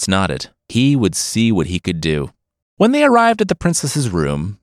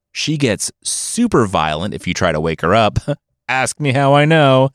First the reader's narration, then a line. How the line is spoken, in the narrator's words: the king laughed